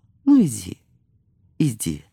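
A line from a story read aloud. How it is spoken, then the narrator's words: Mother's tender reply. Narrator (Russian): ласково отвечала мать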